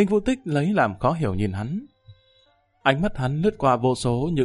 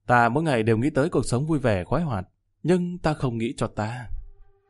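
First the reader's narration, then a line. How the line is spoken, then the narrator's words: Soft, grateful. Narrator (Vietnamese): khẽ lắc đầu cảm kích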